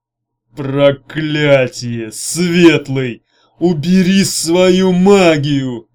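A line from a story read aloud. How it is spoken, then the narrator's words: Growled. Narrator (Russian): прорычал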